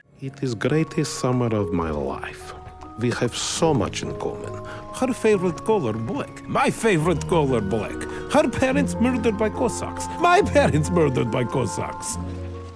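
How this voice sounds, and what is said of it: Consistent but unconvincing Yiddish accent. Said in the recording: “the Yiddish accent ... speaking English, you know, with that sort of Yiddish accent ... he's doing a Borat ... he's not like there yet. He's like trying hard and it's consistent, but it's a consistently not there yet”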